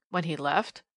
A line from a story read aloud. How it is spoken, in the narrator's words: gasped, more than usual, Mr